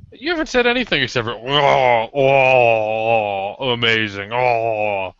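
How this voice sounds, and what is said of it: Zombie-like groaning voice. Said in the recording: “That was my zombie impression.”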